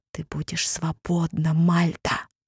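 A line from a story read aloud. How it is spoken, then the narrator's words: Whisper. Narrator (Russian): прошептал он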